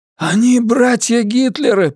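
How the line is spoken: Attempted shout. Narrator (Russian): пытается крикнуть Каллаган

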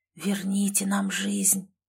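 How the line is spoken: Breathed out, ghostly. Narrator (Russian): выдохнул рядом стоящий призрак

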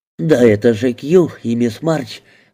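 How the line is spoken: Exclaimed. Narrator (Russian): воскликнула Мэзи

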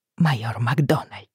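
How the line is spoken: Soft exclamation, slightly trembling. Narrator (Russian): негромко воскликнула я, надеясь, что голос не слишком дрожит

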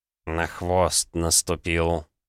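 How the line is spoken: Gloomy reply. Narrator (Russian): мрачно ответил Савелий

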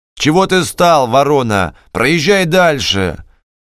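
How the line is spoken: Harsh ugly shouting. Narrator (Russian): И городовой, около освещенного подъезда клуба, кричал отвратительным голосом на Пантелеймона

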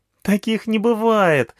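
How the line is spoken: Girl laughing. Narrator (Russian): рассмеялась девочка

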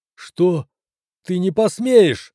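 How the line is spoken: Yelling. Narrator (Russian): завопил доктор

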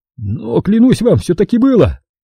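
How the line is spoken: Whining. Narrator (Russian): захныкал Симонетти

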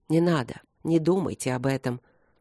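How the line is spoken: Very soft. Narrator (Russian): очень мягко проговорил

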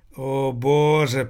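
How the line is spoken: Groan. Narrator (Russian): простонал Томмазо Кампанелло

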